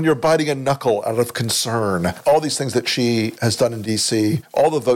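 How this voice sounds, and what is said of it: Usual voice. Nothing is said of it.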